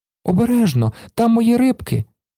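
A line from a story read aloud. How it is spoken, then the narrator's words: Child's cry. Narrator (Ukrainian): скрикнув малий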